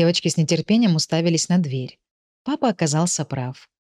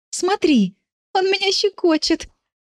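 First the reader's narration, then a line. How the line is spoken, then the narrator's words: Laughing. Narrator (Russian): Она засмеялась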